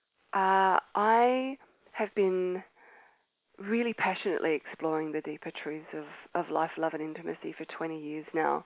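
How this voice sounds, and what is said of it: Australian accent. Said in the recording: “As you can tell by my accent, I am Australian”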